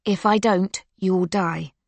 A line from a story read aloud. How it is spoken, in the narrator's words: Yelena says, keeping her voice steady